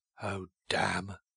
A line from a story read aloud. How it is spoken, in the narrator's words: he said irritably